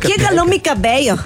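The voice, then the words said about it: Attempted Yucatecan accent, sounds Colombian. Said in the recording (Spanish): “el acento yucateca ... Es como yucateco de Bogotá.”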